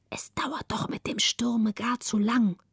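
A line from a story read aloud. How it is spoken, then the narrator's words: Relieved whisper. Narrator (German): Margareta atmete frei auf, flüsterte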